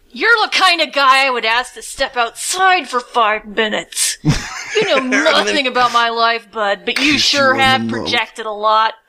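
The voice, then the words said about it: Performed character voice. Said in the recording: “how do you do that with your voice? It's amazing. ... It's dynamic. ... Yeah, it's pretty good.”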